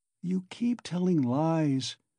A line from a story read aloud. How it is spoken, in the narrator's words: said slowly and weakly